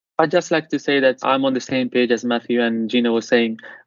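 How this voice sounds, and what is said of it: Italian-accented English. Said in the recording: “my accent ... us Italians”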